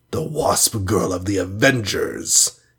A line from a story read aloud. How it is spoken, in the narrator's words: hissed